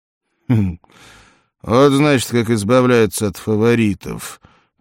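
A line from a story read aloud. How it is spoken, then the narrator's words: Grumble. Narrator (Russian): проворчал всадник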